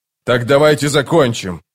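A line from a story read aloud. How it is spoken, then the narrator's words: Growled. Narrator (Russian): прорычал Паран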